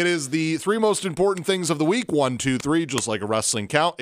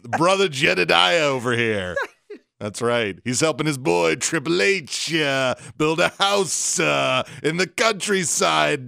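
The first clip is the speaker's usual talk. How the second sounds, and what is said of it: Poor impression of a wrestler's voice. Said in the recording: “my horrible impersonation of The Rock doing the Triple H impression”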